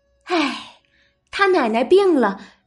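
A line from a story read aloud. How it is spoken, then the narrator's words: Sighing. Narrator (Chinese): 袭人等人都叹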